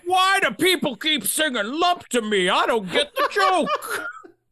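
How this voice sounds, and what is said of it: Imitates another person's voice. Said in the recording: “How do you impersonate Joe Biden? ... I got Joe Biden on the line.”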